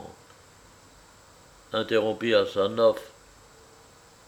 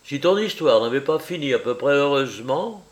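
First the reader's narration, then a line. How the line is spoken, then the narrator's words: Exclamation. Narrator (French): s'écria Asanov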